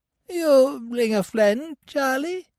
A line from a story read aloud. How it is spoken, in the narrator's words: he squeaked in a thin, piping voice